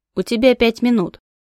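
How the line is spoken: Stern warning. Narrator (Russian): строго предупредила гоблинша

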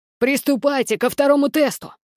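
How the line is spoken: Growled command. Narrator (Russian): прорычал генерал Клеандр

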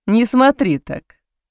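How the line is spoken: Laughing. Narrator (Russian): рассмеялся Боуман

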